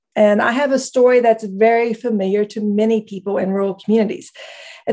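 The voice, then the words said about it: Rural Appalachian accent. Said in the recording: “as you may hear from my accent, I am from rural Appalachia.”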